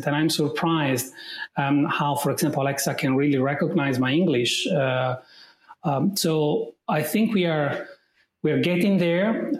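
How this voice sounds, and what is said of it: Italian accent in English. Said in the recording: “you of course can tell that I'm Italian right from my accent”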